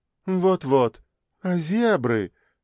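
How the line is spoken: Sigh. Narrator (Russian): Она вновь вздохнула

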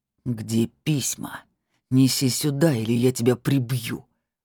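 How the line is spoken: Growling threat. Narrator (Russian): прорычал Петр

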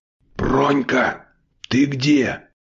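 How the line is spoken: Hissed. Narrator (Russian): зашипела она

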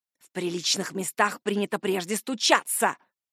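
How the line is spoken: Reproachful hiss from behind. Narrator (Russian): Прилетело укоризненное шипение в спину

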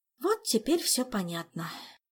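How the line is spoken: Heavy sigh. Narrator (Russian): тяжко вздохнула Ольга

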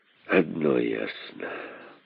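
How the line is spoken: King's grim reply. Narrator (Russian): мрачно отвечал король

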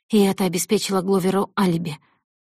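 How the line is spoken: Stunned breathless exhale. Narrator (Russian): выдохнула Зои, оцепенев от потрясения

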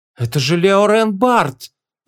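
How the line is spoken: Stunned exhale. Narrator (Russian): пораженно выдохнула Моав

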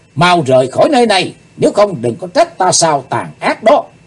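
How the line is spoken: Loud shout. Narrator (Vietnamese): Chàng hét lớn

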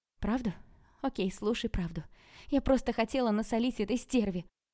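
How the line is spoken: Sudden shout. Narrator (Russian): вдруг выкрикнула Василина

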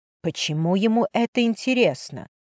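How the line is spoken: Whisper. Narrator (Russian): прошептала Мак

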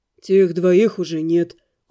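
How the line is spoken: Soothing tone. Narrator (Russian): успокаивающим тоном ответил Дамиан

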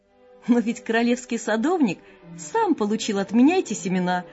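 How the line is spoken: Joyful exclamation. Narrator (Russian): радостно воскликнул Ларсен

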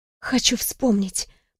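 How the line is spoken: Whisper. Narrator (Russian): прошептала я

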